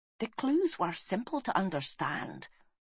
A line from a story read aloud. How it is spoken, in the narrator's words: whispered Gwalchmai